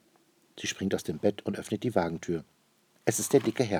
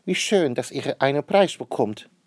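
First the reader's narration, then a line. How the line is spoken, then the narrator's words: Calling out. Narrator (German): ruft sie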